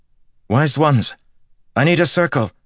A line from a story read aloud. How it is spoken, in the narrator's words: Niald said urgently